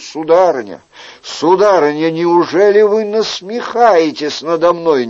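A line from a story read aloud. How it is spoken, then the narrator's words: Pleading exclamation. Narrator (Russian): Умоляюще сложив руки, Эрнатон воскликнул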